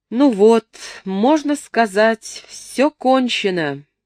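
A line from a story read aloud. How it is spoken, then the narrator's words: Loud, recovering composure. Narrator (Russian): громко произнес он, приходя в себя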